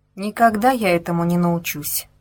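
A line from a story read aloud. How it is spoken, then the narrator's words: Sighing. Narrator (Russian): вздохнула она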